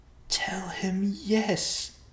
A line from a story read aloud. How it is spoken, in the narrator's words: the short man whispered